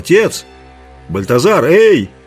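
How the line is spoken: Shouting. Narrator (Russian): Зурита крикнул

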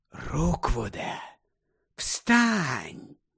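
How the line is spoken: Whispered. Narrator (Ukrainian): прошепотів Гаррі

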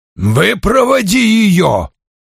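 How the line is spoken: Roaring. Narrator (Russian): проревел он

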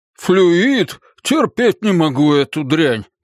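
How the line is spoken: Groaning. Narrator (Russian): простонал месье

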